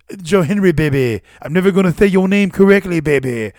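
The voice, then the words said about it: Dusty Rhodes impression. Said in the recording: “his Dusty Rhodes impression.”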